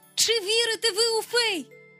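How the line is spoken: Loud call. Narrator (Ukrainian): голосно гукнув він

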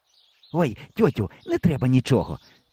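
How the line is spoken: Hissed into ear. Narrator (Ukrainian): зашипів тітці в вухо

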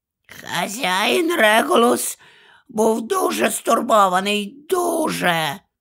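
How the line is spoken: Hoarse mutter. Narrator (Ukrainian): прохрипів собі під ніс Крічер

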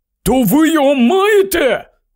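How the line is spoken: Exclamation. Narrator (Ukrainian): вигукнув Рон

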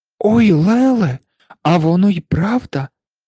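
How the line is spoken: Exclaimed. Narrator (Ukrainian): вигукнула Анушка

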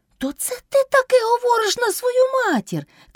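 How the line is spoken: Shout. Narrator (Ukrainian): крикнув Кайдаш

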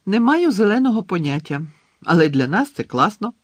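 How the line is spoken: Cheerful. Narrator (Ukrainian): радісно сказала Джинні

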